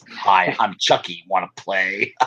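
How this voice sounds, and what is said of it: Sinister serial killer voice. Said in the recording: “in a serial killer voice.”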